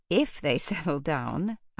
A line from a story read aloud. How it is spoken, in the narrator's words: Althea said with a laugh